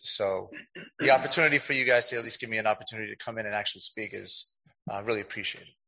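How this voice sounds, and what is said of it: Hoarse voice from laryngitis. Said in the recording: “have a bit of laryngitis.”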